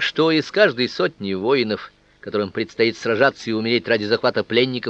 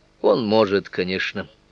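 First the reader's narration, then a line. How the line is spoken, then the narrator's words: Tired traveler. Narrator (Russian): устало промолвил путник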